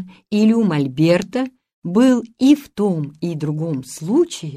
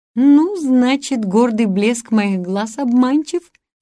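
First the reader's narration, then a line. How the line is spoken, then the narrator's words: Plain. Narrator (Russian): ответила она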